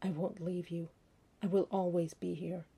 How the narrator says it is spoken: his hoarse whisper

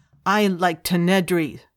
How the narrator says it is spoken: Spirik declared fiercely

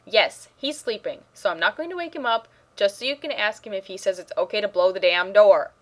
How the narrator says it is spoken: Rodney said quickly and rather loudly

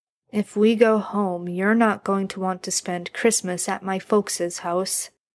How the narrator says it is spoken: Jared mumbled

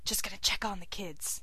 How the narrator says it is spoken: whispers

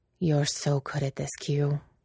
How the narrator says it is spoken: whispered

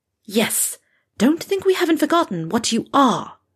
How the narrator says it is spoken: she hissed in Malfoy's face

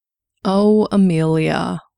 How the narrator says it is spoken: the doctor sighed

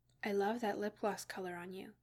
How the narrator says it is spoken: murmured

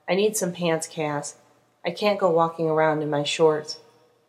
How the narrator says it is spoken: sighed and said

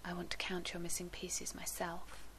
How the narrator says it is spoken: John whispered back

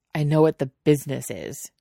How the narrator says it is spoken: Jiang Cheng snaps

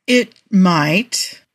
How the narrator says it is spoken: Tony says hesitantly

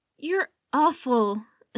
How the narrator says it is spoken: Skywalker sighed

